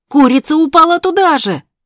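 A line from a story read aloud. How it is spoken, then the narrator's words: Shouting. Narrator (Russian): кричал Болтун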